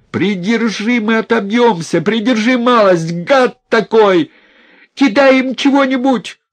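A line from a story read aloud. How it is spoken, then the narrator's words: Shouting. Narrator (Russian): крикнул Наум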